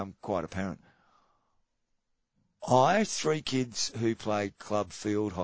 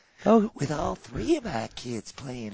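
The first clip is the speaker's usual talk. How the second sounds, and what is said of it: Soft-spoken Southern Belle accent. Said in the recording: “Maybe she can just be real soft. ... Real soft-spoken ... Like a Southern Belle.”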